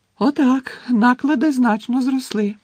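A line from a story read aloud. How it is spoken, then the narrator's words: Announced joyfully. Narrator (Ukrainian): радісно повідомила Луна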